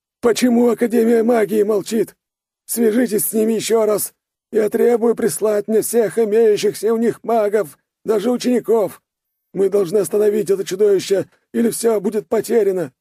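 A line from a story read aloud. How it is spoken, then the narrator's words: King wailing. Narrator (Russian): вопил король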